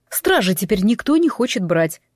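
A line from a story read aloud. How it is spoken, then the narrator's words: Explaining. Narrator (Russian): пояснил он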